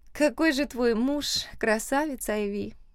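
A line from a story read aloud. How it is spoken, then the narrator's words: Dreamy sigh. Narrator (Russian): Мечтательно вздохнула Берта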